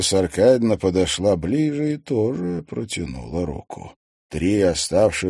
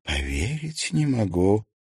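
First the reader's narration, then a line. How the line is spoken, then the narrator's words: Whisper. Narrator (Russian): прошептала близнецы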